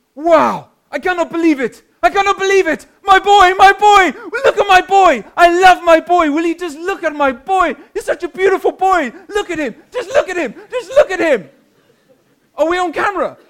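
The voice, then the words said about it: Imitated accent, excited man. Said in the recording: “forgive the accent”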